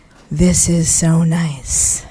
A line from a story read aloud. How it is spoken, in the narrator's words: breathed in and said